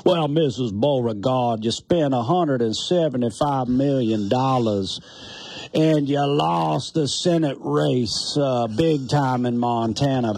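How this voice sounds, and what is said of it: Fake Southern accent. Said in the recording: “my fake Southern accent”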